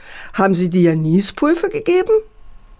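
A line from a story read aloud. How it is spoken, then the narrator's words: Mocking father. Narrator (German): spottete der Vater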